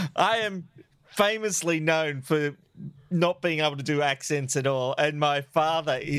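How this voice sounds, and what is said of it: Usual voice. Nothing is said of it.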